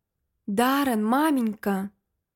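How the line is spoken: Whisper. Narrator (Russian): Лилиан прошептала

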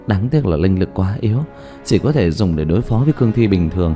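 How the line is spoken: Sighing. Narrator (Vietnamese): Dương Tư Linh thở dài

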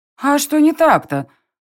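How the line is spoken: Girl snapping. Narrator (Russian): огрызнулась девушка

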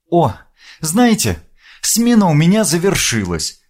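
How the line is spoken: Cheerful young woman. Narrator (Russian): радостно проговорила девушка

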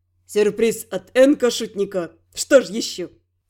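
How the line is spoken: Snort. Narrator (Russian): Фыркнул Финн

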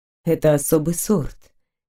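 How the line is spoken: Soft. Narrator (Russian): мягко сказал мужчина

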